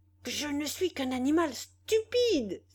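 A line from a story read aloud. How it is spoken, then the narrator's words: Exclaimed. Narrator (French): s'écria-t-il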